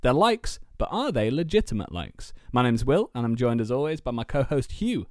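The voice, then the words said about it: Out of breath. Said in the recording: “I ran out of breath at the end of that sentence”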